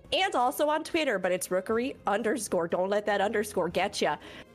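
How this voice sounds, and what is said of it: Put-on Minnesotan accent, not very good. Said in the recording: “A Nova Scotian accent. Was that like Nova Scotia? ... It was a little like Minnesotan. I can't do it very good.”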